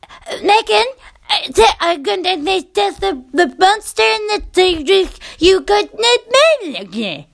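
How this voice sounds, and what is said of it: Impression of a young child talking. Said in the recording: “I'm sure that's not a great impression ... That's how they talk, their children.”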